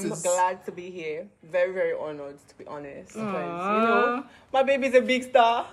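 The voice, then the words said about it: Speaks with a noticeable accent. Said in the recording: “You can hear his accent.”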